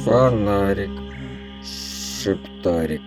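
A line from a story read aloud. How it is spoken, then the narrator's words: Sleepy mumble. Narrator (Russian): пробормотал дядя Боря сквозь сон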